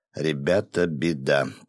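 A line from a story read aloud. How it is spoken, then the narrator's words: Quiet speech. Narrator (Russian): тихо проговорил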